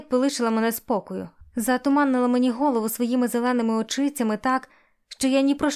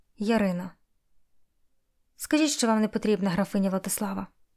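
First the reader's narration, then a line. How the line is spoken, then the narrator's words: Quiet bold request. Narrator (Ukrainian): Попрохала тихо, відчуваючи дивну сміливість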